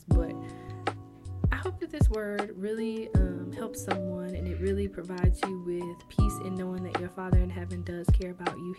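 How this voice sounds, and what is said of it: Winded, out of breath. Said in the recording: “I'm very winded and out of breath from just the passion that I feel from like this word and also like running around”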